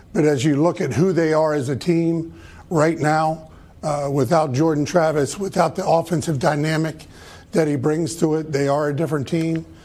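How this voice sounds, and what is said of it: Hoarse, worn-out, slightly nervous voice. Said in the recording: “Why is his voice hoarse? ... Why does it sound like he, he's like Doc Rivers? ... sounds worn out ... he sounded a little nervous”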